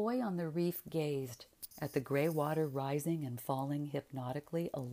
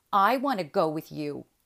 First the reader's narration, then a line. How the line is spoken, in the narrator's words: he said in a sullen tone